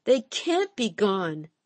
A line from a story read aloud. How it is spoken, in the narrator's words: she cried relentlessly